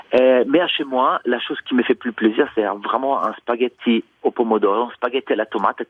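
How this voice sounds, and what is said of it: Charming foreign accent in French. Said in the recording (French): “votre accent est absolument charmant”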